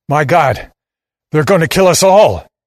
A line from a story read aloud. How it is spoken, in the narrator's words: he shouts